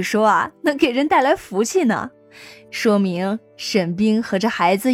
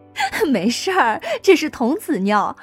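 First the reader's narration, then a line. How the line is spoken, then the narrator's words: Loud laughter. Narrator (Chinese): 姚燕大笑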